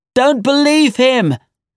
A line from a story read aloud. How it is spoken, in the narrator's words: shouted the general